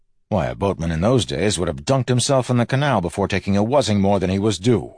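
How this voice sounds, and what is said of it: Usual voice. Nothing is said of it.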